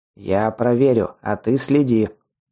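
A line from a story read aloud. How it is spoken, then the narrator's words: Commanding goblin. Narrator (Russian): приказным тоном сказал гоблин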